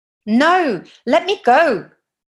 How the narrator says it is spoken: she shouts louder

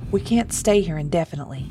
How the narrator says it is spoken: Thomas said, his voice firm

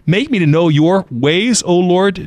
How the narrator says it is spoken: David says

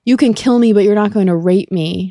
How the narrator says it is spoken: cried

